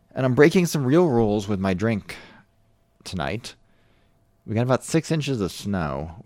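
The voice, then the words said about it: American accent. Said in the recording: “with an American Accent.”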